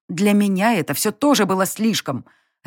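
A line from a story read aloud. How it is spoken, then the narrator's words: Barked reply. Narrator (Russian): рявкнула я в ответ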